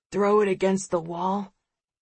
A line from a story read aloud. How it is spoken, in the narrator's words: mumbles Edison